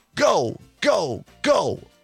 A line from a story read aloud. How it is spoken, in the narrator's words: Straka yelled